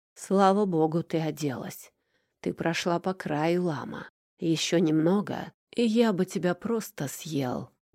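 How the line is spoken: Hoarse rasp. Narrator (Russian): прохрипел Макар

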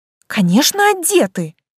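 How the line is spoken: Offended exclamation. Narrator (Russian): оскорбленно воскликнула я

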